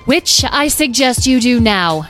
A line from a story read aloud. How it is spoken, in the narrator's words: shouted Carnelian from above